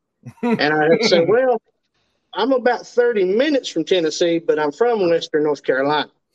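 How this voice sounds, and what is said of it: Western North Carolina Southern accent. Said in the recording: “I love your accent ... where are you from, Tennessee or Kentucky? ... I think I sound weird”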